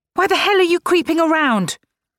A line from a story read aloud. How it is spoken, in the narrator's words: shouted